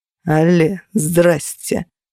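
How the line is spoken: Cold. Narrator (Russian): холодно произнес Феникс

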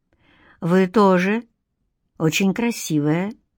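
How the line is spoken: Quiet but firm, in Greek. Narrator (Russian): тихо, но твердо проговорил он по-гречески

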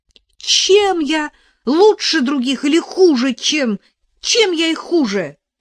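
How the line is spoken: Indignant exclamation. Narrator (Russian): воскликнула она в свой черед возмущенно

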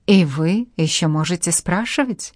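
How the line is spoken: Frightened whisper. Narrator (Russian): прошептали ее белые губы

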